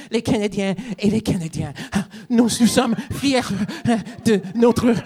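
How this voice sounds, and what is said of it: Imitates another person's voice. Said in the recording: “my impression of French Trudeau ... watch any clip and that's him”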